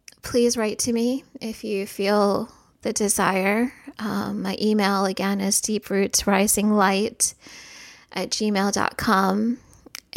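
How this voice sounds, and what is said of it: Shaky voice. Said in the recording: “in this shaky voice”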